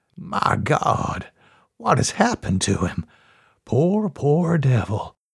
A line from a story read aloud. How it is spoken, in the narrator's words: he said softly